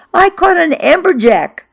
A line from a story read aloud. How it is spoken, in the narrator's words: I shouted from the boat to Fran